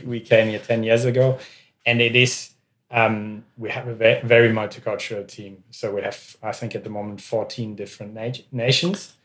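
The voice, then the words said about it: Foreign accent. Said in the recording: “as you probably can hear by our accents, we are foreign”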